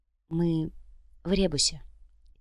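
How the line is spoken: Quiet. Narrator (Russian): тихо сказала Яна

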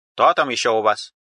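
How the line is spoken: Stern question. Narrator (Russian): строго спросила Мила

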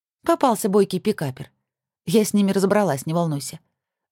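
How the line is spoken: Level-voiced reply. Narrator (Russian): ровным голосом ответила Зоя

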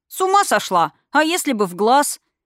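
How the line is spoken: Indignant. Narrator (Russian): возмущенно моргнула грозная птица

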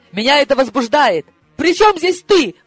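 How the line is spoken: Shrill squeal. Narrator (Russian): взвизгнула я

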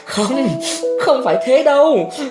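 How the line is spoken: Laughing voice. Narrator (Vietnamese): Thọ Hương bật cười nói

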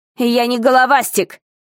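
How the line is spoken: Angry exclamation. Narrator (Russian): сердито воскликнул капитан Билл

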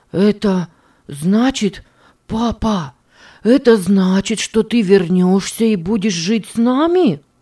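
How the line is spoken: Forced out, dry throat. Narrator (Russian): выдавил он ... чувствуя, как в горле все пересохло

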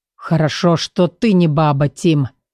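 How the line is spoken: Speaking through clenched teeth. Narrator (Russian): процедил сквозь зубы Эдер

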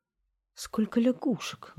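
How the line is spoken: Exclaimed. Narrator (Russian): воскликнула принцесса

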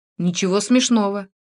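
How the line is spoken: Angry remark. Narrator (Russian): Я сердито заметил

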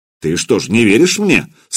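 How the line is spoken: Stern question. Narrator (Russian): строго спросил Богуслав

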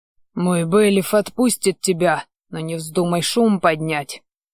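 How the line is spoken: Said through gritted teeth. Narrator (Russian): процедил я

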